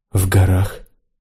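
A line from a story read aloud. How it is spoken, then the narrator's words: Quiet woman. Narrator (Russian): тихо сказала женщина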